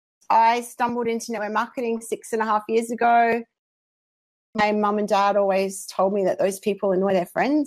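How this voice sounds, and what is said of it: Australian accent. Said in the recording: “my accent for the non-Aussies”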